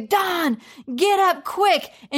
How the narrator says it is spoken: yell in the middle of the night

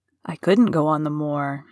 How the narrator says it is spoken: he said in a resentful tone

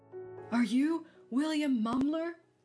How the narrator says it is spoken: the man wheezed out between breaths

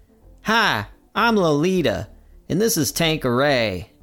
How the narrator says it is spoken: the chick on the left, in a country accent, says

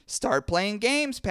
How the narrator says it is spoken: Patty cries

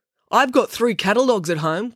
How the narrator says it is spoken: called out another boy

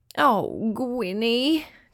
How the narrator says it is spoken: groaned her mum

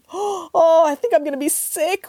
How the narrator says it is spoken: wailed Lucy

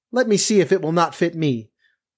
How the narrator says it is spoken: Cinderilla said to them laughing

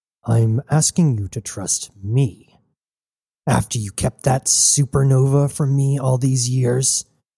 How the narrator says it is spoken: Cybele growled

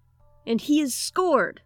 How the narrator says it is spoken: the flunky roared

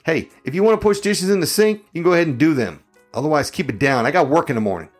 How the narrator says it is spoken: I yelled like a drill sergeant

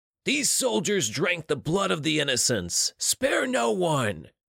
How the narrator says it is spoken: he yelled

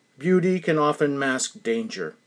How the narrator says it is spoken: Reuben said

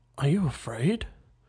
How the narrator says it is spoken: he found breath to whisper, shaking

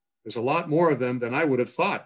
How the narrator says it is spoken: the sheriff exclaimed

